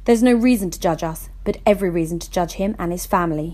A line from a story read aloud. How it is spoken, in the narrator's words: he spat bitterly, every word coming out like an arrow being fired at a target